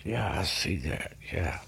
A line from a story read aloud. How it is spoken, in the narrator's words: was whispering